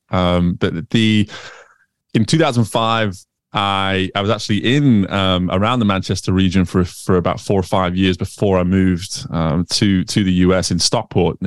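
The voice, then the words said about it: Manchester accent with American tinge. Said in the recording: “a little bit of a Manchester accent, but then you've got this American bit that comes through there as well ... If I come to the UK, they tell me I sound American, and Americans will still tell me I sound British”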